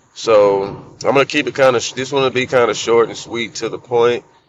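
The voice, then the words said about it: Sick, under-the-weather voice. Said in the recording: “can hear it in my voice, ... I am a bit under the weather”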